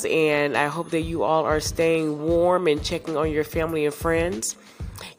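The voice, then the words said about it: Congested, altered voice. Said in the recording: “As you can probably hear, my voice is a little different... seasonal allergies and sinuses draining”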